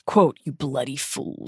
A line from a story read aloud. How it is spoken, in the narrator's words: he said gruffly